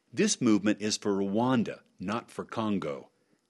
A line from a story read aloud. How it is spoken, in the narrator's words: A ramp agent at the airport, who gave his name as John, said quietly